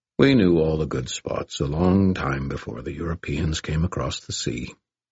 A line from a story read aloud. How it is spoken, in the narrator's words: River Shoulders said calmly